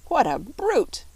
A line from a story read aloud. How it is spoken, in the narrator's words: croaked Billina